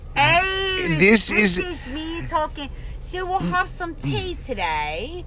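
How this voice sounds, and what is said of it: Put-on British accent. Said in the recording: “More of like a British accent.”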